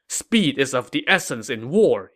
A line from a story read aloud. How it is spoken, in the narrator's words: he said angrily